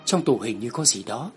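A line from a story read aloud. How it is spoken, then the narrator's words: Soft whispered question. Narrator (Vietnamese): Tôi ghé sát bên tai cậu ta khẽ hỏi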